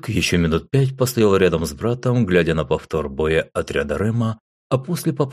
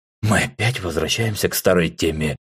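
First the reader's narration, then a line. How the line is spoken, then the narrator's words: Heavy sigh. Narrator (Russian): тяжело вздохнул Эдгард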